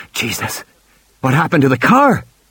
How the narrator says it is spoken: Malcolm gasped

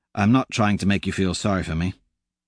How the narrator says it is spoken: he says quickly

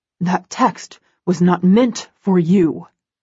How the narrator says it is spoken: he growls

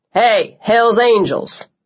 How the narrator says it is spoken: Cole barked

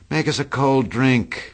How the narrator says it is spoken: cried Daisy

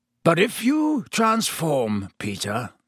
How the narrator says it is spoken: growled Black

